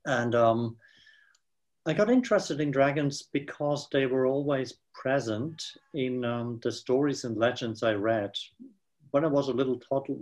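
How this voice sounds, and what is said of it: Swiss accent in English. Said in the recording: “I'm a Swiss ... you can't get really rid of your Swiss accent”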